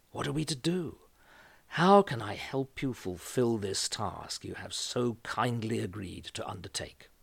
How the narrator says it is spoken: he said in a low voice

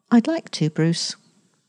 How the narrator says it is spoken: her own voice saying, quite meekly for Nell

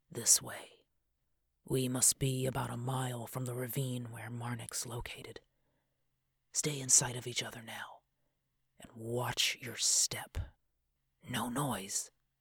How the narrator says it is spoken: gestured with it to the left as he whispered

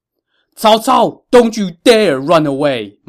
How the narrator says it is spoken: Ma Chao shouted

